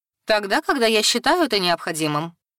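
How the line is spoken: Dry, curt. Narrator (Russian): сухо проинформировала блюстители Анита

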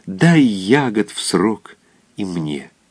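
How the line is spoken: Reverent whisper. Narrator (Russian): серый можжевельник шептал благоговейно

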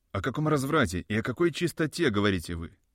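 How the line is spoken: Plain question. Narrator (Russian): спросил я

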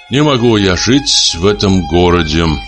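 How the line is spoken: Gloomy speech. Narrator (Russian): говорил он мрачно

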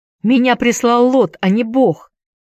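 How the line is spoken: Shout. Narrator (Russian): крикнул Энди

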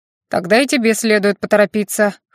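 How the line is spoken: Snorting. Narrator (Russian): хмыкнул он

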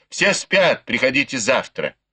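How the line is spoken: Angry irritated shout. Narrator (Russian): Цин Вэнь еще больше разозлилась и раздраженно крикнула

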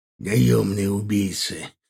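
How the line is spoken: Through gritted teeth. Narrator (Russian): процедил поднявшийся Аркар

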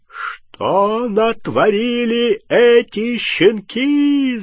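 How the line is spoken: Yelling. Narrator (Russian): завопил он

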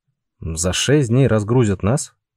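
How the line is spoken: Plain question. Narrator (Russian): спросил Пауль

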